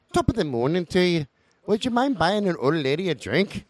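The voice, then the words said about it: Put-on Irish accent, old woman. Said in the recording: “he noticed right away she was from Ireland, you know, probably because of her accent.”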